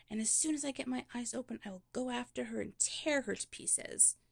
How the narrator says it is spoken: she cried

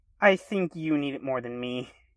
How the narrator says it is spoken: she chuckled

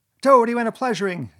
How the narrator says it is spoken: he yelled

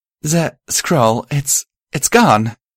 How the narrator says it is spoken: she stammered

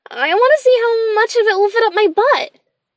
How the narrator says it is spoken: the little boy said excitedly

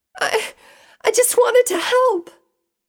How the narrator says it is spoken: Pinky wailed

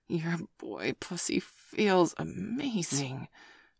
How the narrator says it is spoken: Dana hissed

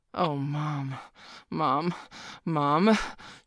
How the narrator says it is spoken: groaned, his cock feeling squeezed

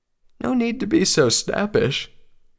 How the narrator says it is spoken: Spike said with a yawn

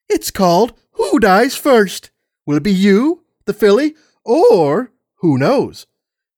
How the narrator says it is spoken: He chuckled loudly to himself

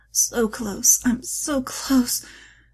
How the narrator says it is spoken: she groaned between clenched teeth

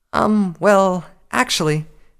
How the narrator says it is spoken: Twilight stammered

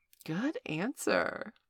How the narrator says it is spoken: purred Valerie

